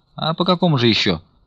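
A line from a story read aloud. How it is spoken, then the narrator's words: Quick interjection. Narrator (Russian): Быстро подхватил Стуколов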